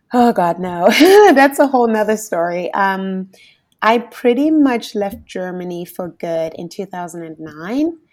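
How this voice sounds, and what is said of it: Foreign accent, German-born speaker. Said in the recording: “I love your accent ... You're from Germany.”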